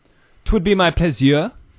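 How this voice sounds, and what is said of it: Put-on French accent. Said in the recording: “I just had a French accent.”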